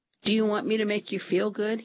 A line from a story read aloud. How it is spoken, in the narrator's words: he asked